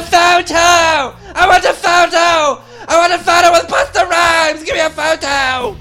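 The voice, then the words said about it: Shouting English girl accent. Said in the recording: “English girl, that accent is the worst.”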